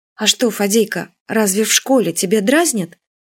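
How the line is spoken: Careful gentle question. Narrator (Russian): Юля очень осторожно и ласково спросила

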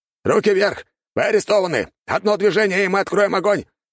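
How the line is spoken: Man shouting. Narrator (Russian): кричал какой-то мужик

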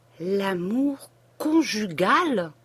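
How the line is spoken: Slow, deliberate separated words. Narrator (French): dit-il en séparant lentement ces deux mots

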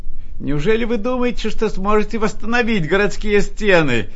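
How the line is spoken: Group shouting. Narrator (Russian): кричали они

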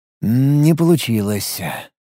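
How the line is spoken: Sighing. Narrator (Russian): вздохнул

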